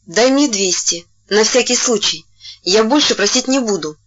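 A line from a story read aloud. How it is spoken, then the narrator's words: Plain. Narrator (Russian): сказала Сонечка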